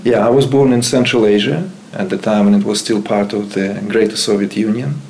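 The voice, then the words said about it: Central Asian accented English. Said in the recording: “And you have an accent. You came to the east, right? Uzbekistan?”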